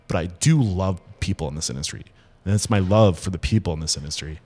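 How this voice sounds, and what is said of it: Emotional, choked-up voice. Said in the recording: “See, I'm getting emotional again, dude. It happens to me every time.”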